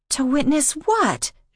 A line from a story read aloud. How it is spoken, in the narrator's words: She yelped